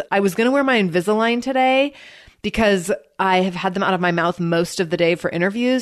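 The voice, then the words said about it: Congested, runny-nose voice. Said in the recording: “if I sound like my nose is running, it's because it is”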